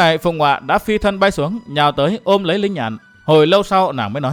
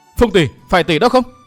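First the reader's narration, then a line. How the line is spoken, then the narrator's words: Shocked, frightened cry. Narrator (Vietnamese): Linh Nhạn kinh hoàng la lên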